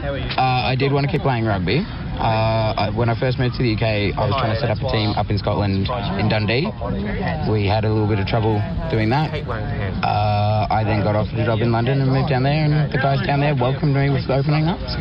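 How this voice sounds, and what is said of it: Australian accent. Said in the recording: “Now, that's an Australian accent that you're saying there.”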